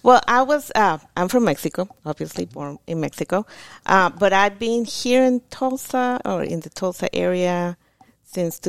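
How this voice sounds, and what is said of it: Mexican accent. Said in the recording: “some people might be hearing your accent.”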